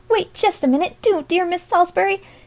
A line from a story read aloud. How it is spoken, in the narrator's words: she cried